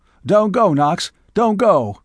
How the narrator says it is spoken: he cried

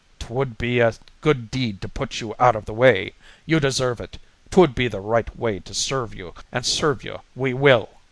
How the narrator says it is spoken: There were high words, Sullivan snarling

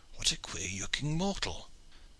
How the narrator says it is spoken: an English voice behind him exclaimed in very audible tones

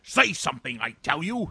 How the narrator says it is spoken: he repeated in a harsher tone, raising his voice

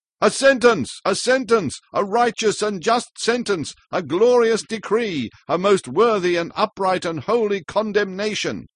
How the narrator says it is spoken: shouted the Pest family altogether

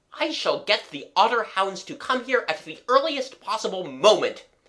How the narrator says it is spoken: said Egbert savagely

